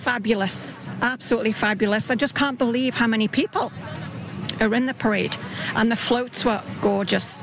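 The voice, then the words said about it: Slight British accent. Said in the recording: “a little bit of a British accent”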